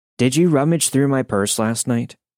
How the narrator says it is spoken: asked calmly at first

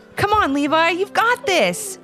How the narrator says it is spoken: shouted his dad

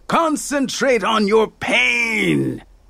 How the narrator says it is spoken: he shouted

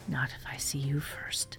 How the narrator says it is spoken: whisper

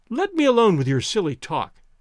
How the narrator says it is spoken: cried Toinette gaily

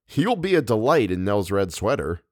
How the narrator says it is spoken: he said

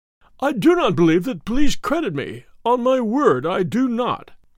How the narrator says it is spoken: said he in a wailing voice

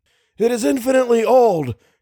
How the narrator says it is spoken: cried Little

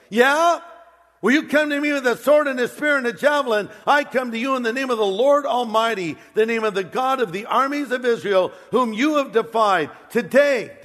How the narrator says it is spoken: Goliath yells, David yells

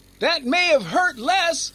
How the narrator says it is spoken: Hex yelled back

